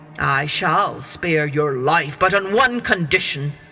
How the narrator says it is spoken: growled the beast

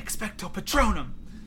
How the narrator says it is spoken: he whispered

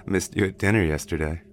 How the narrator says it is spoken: he said with a chuckle

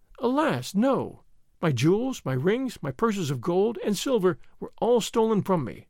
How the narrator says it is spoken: answered the Princess Hermonthis with a sob

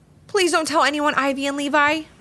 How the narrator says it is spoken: pleaded Finn

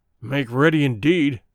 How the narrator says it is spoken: growled Good

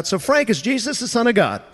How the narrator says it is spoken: Pastor Dale blurts out

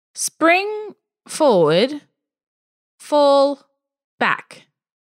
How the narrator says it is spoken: He explained, slowly and uncertainly

